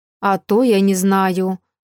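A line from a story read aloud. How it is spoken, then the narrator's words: Dean's dismissive snort. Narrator (Russian): хмыкнул гадский декан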